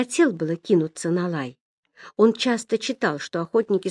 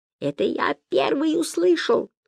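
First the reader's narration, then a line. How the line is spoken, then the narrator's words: Squeaky. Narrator (Russian): пискнул Гай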